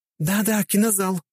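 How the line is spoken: Two voices, joyful. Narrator (Russian): радостно подхватили Катя и Хельга

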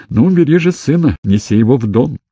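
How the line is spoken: Happy laughing command. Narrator (Russian): счастливо засмеялась и велела

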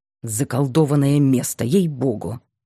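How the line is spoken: Angry, from behind. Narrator (Russian): сердито сказал за моей спиной Ясногородский

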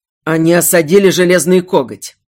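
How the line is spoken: Growled. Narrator (Russian): рыкнул Эйдарт

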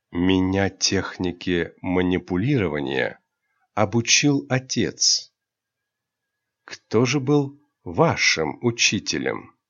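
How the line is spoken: Quiet intimate whisper. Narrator (Russian): тихо, только для нее прошептал

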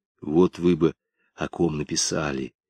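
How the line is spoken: Confiding whisper. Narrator (Russian): доверительным шепотом произнес Толя

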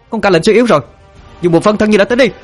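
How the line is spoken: Loud shout. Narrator (Vietnamese): Linh Miêu hét lớn

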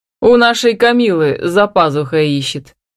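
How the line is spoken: Chuckling. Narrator (Russian): хохотнул он

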